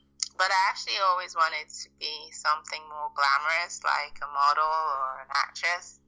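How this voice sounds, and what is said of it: Mixed Nigerian, American, English, Australian accent. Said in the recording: “Your accent is really distinct... part Nigerian, part American, part English, part Australian accent... a concoction of sorts”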